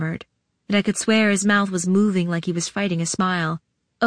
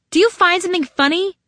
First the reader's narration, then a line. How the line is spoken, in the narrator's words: I snapped